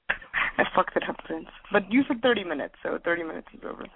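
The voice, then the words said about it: Put-on Russian accent. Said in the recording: “I'm talking in a Russian accent.”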